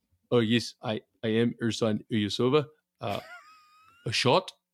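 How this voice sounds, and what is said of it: Put-on Soviet accent, imitating Ersan Ilyasova. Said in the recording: “that's my Ersan Ilyasova accent... You just put on a random Soviet accent”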